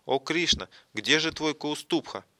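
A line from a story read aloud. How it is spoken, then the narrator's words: Frightened exclamation. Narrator (Russian): Радха испугалась и воскликнула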